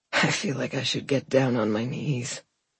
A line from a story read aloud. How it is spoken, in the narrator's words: he said with a limp chuckle